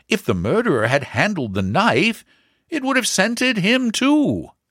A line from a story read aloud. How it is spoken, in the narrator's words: the inspector objected eagerly